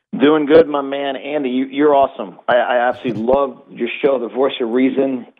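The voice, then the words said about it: New York accent. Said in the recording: “as you hear from my accent, I'm born and raised in New York”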